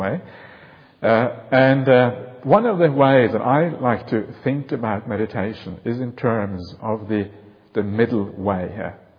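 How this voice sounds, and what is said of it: Slight unfamiliar accent. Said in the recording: “I have a little bit of an accent. Some of my people think, oh, what is this strange accent I'm hearing here?”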